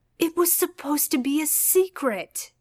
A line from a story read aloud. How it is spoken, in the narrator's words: Adam exclaimed